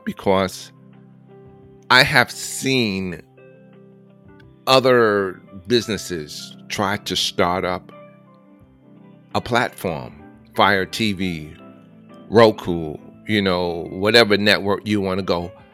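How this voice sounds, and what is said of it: Choked up, emotional voice. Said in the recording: “I'm getting a little choked up”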